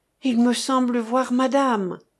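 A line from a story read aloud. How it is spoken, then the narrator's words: Exclaiming. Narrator (French): s'écria-t-il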